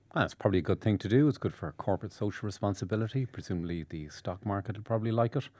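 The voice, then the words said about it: Deep, calm voice. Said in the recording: “the sanguine deep voice here to my chirpiness”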